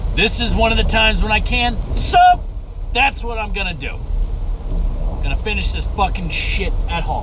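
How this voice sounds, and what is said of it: Loud yelling delivery. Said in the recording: “I'm yelling a lot. Jesus, why are you yelling so much? Why are you so fucking yelly?”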